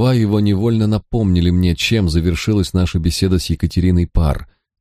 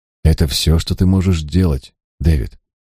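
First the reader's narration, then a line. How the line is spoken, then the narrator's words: Gentle. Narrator (Russian): мягко сказал Николас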